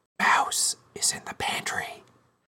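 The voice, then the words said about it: Whispered phrase. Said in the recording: “I'll whisper it”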